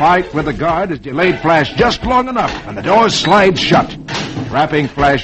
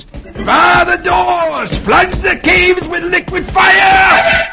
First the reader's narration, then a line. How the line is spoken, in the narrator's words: shouting to the guards at the entrance